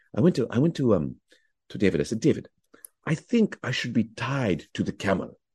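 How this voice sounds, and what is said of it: Imitates another person's voice. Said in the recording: “doing an impression of Omar ... he had such a beautiful way of speaking”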